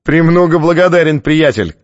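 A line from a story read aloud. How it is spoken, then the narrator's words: Shouted after someone. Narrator (Russian): крикнул тот ему вслед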